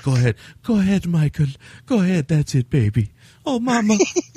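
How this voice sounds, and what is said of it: Sultry, smoky female voice impression. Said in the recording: “That's my impersonation of Burial Ground... she got a very sultry voice... got that kind of smoker's voice”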